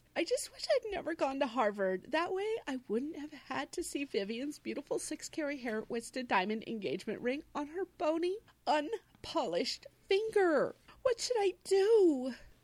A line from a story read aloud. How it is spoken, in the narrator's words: She cries